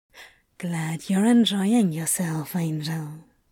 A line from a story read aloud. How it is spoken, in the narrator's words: he said, softly speaking the words against Aziraphale's skin